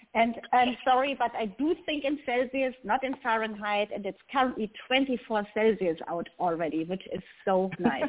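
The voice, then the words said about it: German accent. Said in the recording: “As you can tell from my accent, I'm not native to America. I am actually from Germany.”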